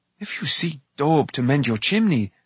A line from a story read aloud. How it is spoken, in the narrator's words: Taran gasped